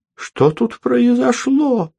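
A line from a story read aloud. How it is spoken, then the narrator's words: Trembling voice. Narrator (Russian): дрожащим голосом спросила Елизавета Ивановна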